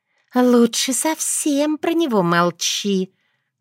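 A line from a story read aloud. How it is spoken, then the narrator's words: Gentle advice. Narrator (Russian): ласково посоветовала Эвил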